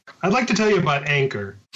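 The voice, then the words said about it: Exaggerated podcast announcer voice. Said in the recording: “my best podcast voice”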